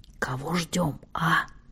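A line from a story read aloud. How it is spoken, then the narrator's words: Whispered question. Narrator (Russian): Салах спросил тоже шепотом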